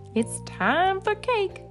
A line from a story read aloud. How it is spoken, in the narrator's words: the monsters shout